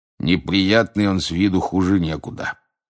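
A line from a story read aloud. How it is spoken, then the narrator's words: Male grumble. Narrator (Russian): проворчал мужчина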